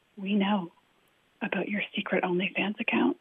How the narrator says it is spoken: he whispered

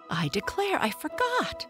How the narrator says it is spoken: cried

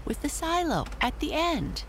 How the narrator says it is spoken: cried Amy

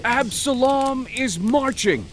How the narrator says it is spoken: They shouted

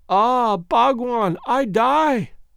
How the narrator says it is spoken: gasped the beautiful creature

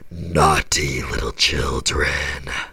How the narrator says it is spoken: I heard it say in a cold, raspy voice

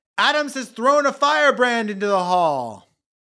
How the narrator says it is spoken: One congressman interrupted, shouting

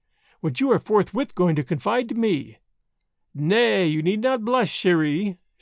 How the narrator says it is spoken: said Marguerite, merrily

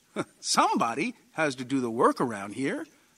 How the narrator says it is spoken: John said cheerfully

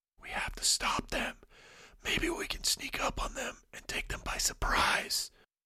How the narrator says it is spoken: Avin whispered to Drago

